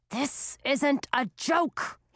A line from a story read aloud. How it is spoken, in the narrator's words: hissed